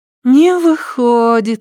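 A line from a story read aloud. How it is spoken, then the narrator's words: Little girl sighing, upset. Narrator (Russian): огорченно вздохнула мелкая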